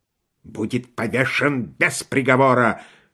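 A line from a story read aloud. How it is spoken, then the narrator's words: Hissing. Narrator (Russian): шипел майор Вольф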